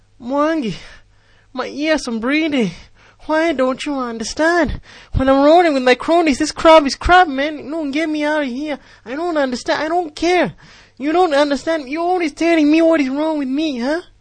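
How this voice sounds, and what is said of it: Exaggerated put-on accent character voice. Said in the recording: “two of my favorite butcherings of the English language and combine them into one character ... I've combined two characters into one, the accent.”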